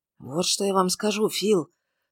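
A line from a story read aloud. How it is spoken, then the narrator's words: Whisper. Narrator (Russian): шепотом произнес Лоример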